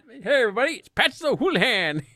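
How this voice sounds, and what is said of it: Transatlantic 1940s newsreel-style accent. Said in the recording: “that transatlantic, like mid-40s newsreel accent. It's so well done.”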